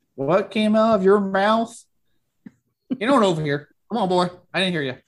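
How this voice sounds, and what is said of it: Heavy put-on Southern US accent. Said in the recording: “Put on like a really heavy southern accent”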